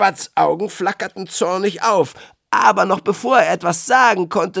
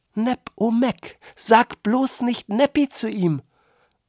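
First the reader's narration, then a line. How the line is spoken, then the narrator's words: Low murmur. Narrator (German): raunte Candy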